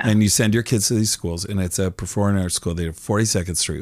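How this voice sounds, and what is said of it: Slightly hoarse, raspy voice. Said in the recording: “I'm a little hoarse. I'm a little raspy.”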